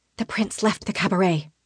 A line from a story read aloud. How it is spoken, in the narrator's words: I whisper